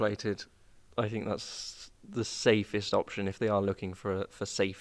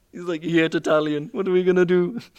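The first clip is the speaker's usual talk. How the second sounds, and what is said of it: Mock half-Italian, half-Romanian accent. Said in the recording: “Was that a half Italian accent? ... half what? Italian, half Romanian”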